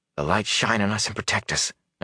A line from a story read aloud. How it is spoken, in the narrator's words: Nynaeve whispered